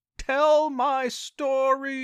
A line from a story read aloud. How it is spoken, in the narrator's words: Albert's terrifying scream